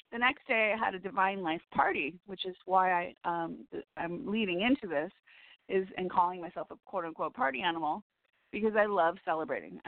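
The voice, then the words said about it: Scratchy, strained voice. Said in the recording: “I have a really scratchy voice right now... my voice is scratchy, because I was really singing it”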